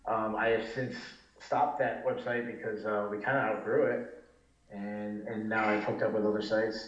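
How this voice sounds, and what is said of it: Slight Northeastern US accent. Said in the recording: “another Northeasterner with a little hint of that accent”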